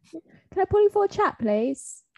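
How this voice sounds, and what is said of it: Bad put-on British accent. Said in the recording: “My British accent is so bad.”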